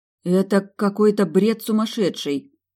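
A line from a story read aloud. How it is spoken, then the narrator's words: Confused mutter. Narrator (Russian): растерянно пробормотала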